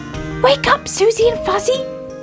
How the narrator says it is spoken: he cried

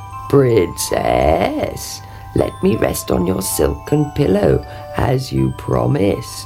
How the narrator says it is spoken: he croaked

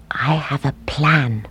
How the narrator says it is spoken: he whispered

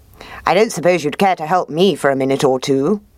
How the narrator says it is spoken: asked the fox

